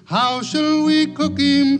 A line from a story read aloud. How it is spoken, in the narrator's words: cried Billy Barlow